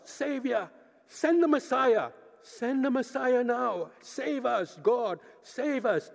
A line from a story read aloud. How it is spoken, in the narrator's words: many of these facing the slaughter, they would have cried out